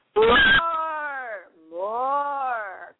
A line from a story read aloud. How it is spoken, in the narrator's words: cried the ghost with a mighty bellow